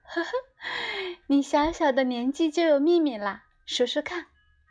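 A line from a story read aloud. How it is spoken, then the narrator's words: Laughing. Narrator (Chinese): 莫老师笑了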